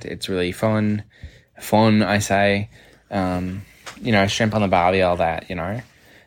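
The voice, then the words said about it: Playful fake Australian accent. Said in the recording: “I do love to do, like, a fun Australian accent ... are so good at it”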